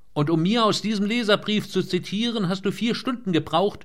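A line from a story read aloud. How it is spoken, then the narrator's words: Shouted into phone. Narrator (German): schrie Sager ins Telefon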